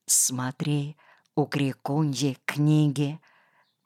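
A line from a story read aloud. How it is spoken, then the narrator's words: Whispered. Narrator (Russian): Почему-то шепотом сказал я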